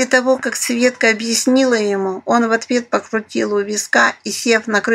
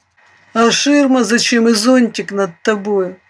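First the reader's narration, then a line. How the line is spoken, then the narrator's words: Snorting hog. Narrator (Russian): хмыкнул черный хрякер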